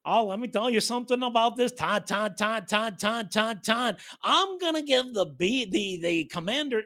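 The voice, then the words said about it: Imitates another person's voice. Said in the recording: “my impersonation of Mel Kiper”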